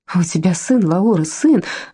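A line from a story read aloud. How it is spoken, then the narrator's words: Joyful exclamation. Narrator (Russian): радостно воскликнула Энца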